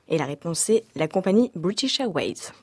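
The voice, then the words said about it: Names an English term in a nice accent. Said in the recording (French): “Très bel accent.”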